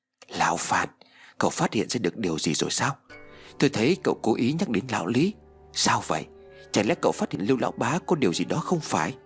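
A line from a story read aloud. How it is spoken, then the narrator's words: Soft whisper. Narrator (Vietnamese): nhẹ nhàng như con mèo thì thào nói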